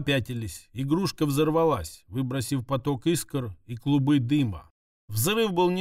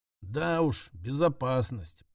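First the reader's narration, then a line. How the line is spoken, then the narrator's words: Mumbling. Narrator (Russian): пробормотал я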